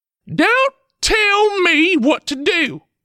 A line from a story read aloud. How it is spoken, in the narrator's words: snapped